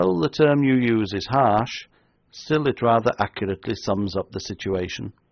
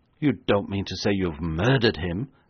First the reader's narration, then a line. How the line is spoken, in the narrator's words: asked Sir George in an awed whisper